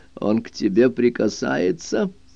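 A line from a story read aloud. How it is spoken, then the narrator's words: Almost spiteful question. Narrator (Russian): мать почти злобно спросила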